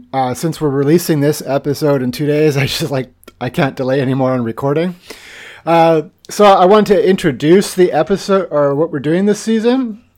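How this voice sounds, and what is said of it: Congested, stuffy allergy voice. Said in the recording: “my voice sounds a little bad or I sniffle or sneeze. I'm having a really bad day with allergies today.”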